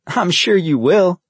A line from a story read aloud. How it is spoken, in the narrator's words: Vincent laughed